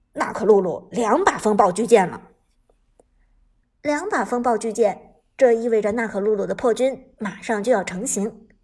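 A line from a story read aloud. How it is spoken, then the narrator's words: Deep, grave voice. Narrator (Chinese): 旺财沉声说道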